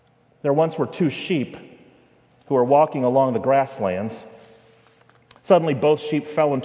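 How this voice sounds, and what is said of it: Usual voice. Nothing is said of it.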